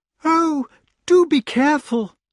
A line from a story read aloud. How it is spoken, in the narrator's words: cried the lady